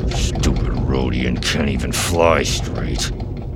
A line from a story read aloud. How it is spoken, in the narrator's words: he muttered